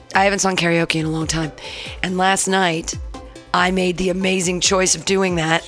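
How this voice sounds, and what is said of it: Strained, worn-out voice. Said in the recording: “my voice is going to be a little bit more difficult to push through my vocal cords”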